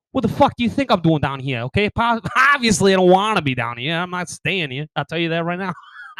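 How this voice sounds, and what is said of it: Put-on Boston accent. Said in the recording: “I'd almost rather get the Boston accent because then they get scared of you.”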